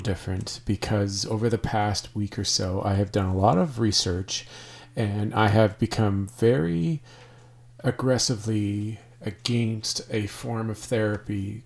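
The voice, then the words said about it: Slightly hoarse voice. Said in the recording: “I sound a little different today, it's because I'm still recovering from a cold, and so I might be sounding a touch hoarse.”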